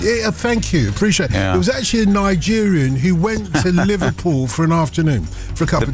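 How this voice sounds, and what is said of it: Usual voice. Nothing is said of it.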